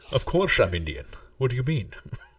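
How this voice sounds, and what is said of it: Put-on Indian accent mixed with Scottish. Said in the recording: “This is Indian Sean Connery.”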